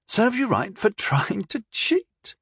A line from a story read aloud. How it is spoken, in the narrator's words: Rondal chuckled